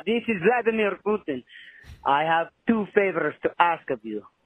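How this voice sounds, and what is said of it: Put-on Russian accent. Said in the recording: “pretend the rest of this is in a Russian accent. I'm not fucking doing this accent for the rest of the song.”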